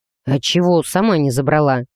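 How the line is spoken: Slightly hoarse reply. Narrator (Russian): немного сипло отозвался Грей

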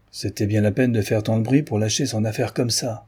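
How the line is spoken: Pitying grumble. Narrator (French): grommela l'employé d'un air de pitié

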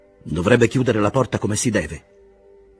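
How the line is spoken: Exclaimed. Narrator (Italian): esclamò Castorp

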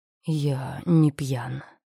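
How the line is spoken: Hoarse. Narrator (Russian): хрипло сказал мужчина

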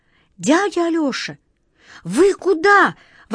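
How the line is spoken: Exclaiming. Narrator (Russian): воскликнула Катя

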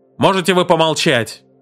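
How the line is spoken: Barking. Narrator (Russian): рявкнул Сомерс

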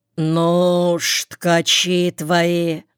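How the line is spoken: Drawl. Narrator (Russian): протянул Петр

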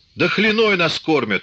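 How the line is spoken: Indignant shout. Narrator (Russian): возмущенно крикнул Кошевой

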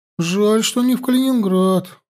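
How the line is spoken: Sigh. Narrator (Russian): вздохнула Мария Владимировна

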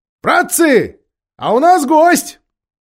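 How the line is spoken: Shout. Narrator (Russian): Даффл крикнул

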